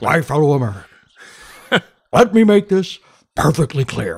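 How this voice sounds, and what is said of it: Richard Nixon impression. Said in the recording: “a rippingly good Richard Nixon impression ... do Nixon”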